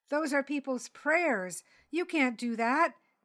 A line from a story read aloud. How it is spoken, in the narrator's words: Nico cried